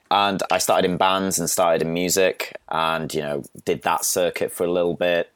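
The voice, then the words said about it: Northwest English accent. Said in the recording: “I grew up in the northwest of England, as the accent may dictate”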